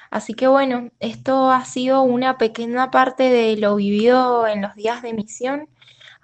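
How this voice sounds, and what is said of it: Cuyo Argentine regional accent. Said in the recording (Spanish): “me encanta escuchar esa tonada cuyana”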